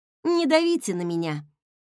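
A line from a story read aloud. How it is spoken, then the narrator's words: Nervous laughter. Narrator (Russian): нервно рассмеялась я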